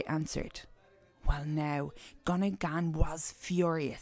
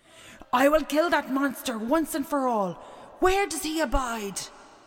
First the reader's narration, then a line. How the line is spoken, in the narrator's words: shouted